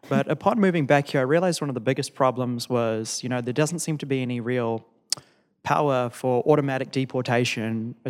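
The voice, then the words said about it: Unusual mixed accent. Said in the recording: “I've lived abroad a lot, hence the strange accent.”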